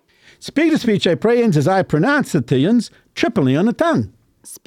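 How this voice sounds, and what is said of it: Unusual put-on regional dialect. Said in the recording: “what is this dialect that you're teaching me? What is this? It's so unusual.”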